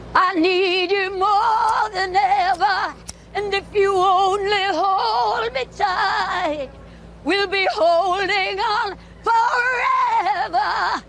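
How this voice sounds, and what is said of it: Raspy-edged singing voice. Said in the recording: “Still that raspy edge to the voice”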